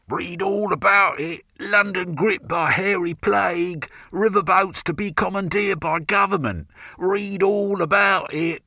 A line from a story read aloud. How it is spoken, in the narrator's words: Scruffy lads shouted